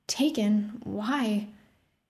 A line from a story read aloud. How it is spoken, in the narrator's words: He sighed